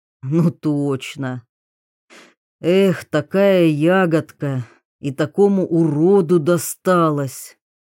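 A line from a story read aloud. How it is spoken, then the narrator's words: Feigned sigh. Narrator (Russian): притворно вздохнул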